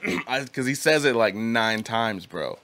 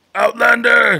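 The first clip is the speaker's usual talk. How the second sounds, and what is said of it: Gravelly Cookie Monster-like shouting voice. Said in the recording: “he says it in this like Cookie Monster voice.”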